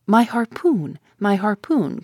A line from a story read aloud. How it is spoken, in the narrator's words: cried Ned Land